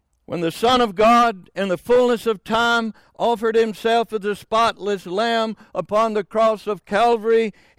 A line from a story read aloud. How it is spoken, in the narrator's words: he cried